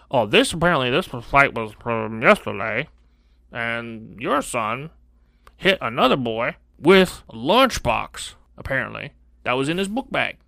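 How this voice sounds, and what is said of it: Character voice without using bottom lip. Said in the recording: “I love the voice that you're using right now ... how you're just not using your bottom lip when you talk ... you relax the tongue and you don't use the bottom lip at all”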